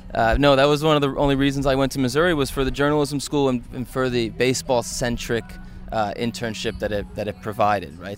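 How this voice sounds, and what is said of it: East Coast American accent. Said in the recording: “I'm from the East Coast ... I hadn't noticed with the accent. ... I'm trying to curb it. ... it still kind of leaks out.”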